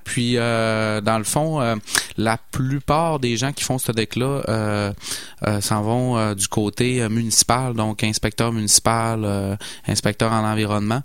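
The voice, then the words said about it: Saguenay Quebec French accent. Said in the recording (French): “mon accent me trahit. Hein. je suis originaire de Saguenay.”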